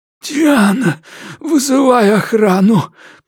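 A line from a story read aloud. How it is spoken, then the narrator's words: Urgent hiss. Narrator (Russian): прошипел Мэтьюс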